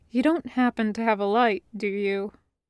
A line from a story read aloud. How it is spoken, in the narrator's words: Jim asked quietly